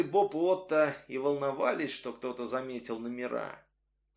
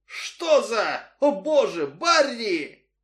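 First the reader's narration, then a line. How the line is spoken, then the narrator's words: Shouted. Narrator (Russian): один крикнул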